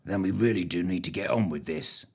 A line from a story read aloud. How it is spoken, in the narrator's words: he muttered